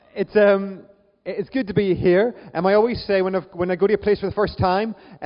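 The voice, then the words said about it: Northern Irish accent. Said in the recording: “my Northern Irish accent often flummoxes people ... that weird accent”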